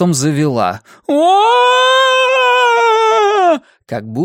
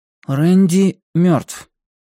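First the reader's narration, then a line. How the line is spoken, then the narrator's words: Flat even voice. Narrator (Russian): ровным голосом ответил Блейз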